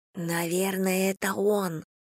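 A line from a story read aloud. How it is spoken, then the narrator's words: Whispered. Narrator (Russian): шепнула Эмма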